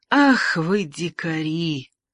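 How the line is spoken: Quiet muttering. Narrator (Russian): тихо пробормотал он

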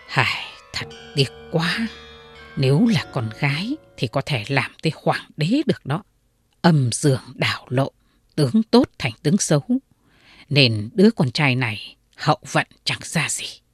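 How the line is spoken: Sighing muttering fortune-teller. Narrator (Vietnamese): người thầy tướng xấu đó thở dài một cái, miệng lẩm bẩm

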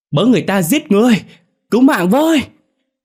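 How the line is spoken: Panicked scream. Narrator (Vietnamese): tiếng hét của ông

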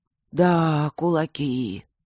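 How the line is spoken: Sighing. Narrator (Russian): вздохнул второй камен

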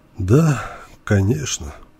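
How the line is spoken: Resigned exhale. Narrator (Russian): обреченно выдохнул участковый

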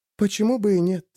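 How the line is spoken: Barely audible. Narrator (Russian): сказала она так негромко, что я не был уверен, что услышал верно

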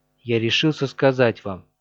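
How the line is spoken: Serious and quiet. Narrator (Russian): начал он серьезным тихим голосом

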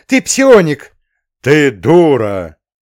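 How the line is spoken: Loud bark, overlapping voices. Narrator (Russian): Гаркнул одновременно с незнакомкой я

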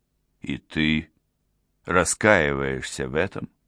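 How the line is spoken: Loving question. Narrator (Russian): спросил он с любовью

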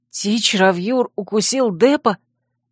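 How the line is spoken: Astonished hoarse rasp. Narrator (Russian): изумленно прохрипела я

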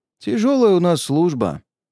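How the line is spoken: Sighing. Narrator (Russian): вздохнул нарцисс

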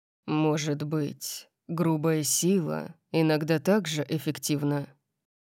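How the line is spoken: Deep rumbling tone. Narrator (Russian): Сказал он ракочущим тоном, который проник в мою грудь и вызвал голодную дрожь

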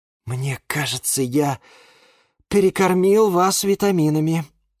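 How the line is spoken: Sigh. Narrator (Russian): вздохнул Юра

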